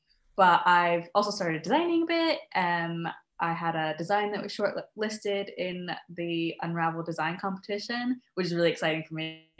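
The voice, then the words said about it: American accent. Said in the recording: “I'm originally from the States, as you can probably tell from my accent ... You do not have a Scottish accent? ... No.”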